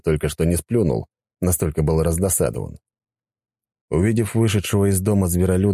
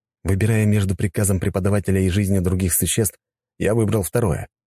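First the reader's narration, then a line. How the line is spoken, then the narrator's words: Calm reply. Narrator (Russian): спокойно ответил я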